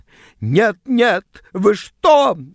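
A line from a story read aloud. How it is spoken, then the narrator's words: Shrill shriek. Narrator (Russian): взвизгнула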